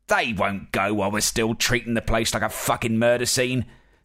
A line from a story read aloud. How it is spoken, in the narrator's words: snapped Carver